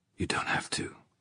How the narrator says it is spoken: Mark said in a whisper

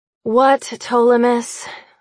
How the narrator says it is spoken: I sigh

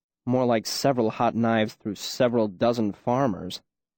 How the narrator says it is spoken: Bast said dryly

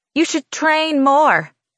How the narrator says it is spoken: she says, her voice a bit louder

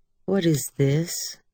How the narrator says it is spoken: Her voice was mild, as though asking a perfectly reasonable question

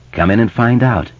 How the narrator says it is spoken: Mike said, kindly enough

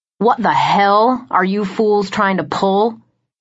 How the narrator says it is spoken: snarled

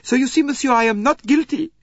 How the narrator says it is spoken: cried Michel anxiously

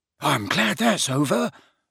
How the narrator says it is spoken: muttered Neville

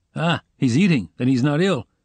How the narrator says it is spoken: said Razumihin

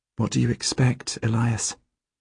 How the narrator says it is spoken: Helene asks quietly

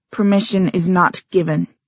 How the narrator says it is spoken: said Gia tightly

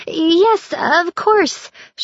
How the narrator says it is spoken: she stammered

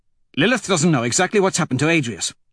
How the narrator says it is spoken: Cassius says quickly

